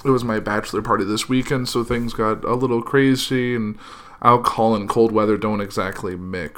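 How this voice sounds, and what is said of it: Slightly hoarse, sick-sounding voice. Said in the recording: “My voice is a little hoarse and I'm a little sick”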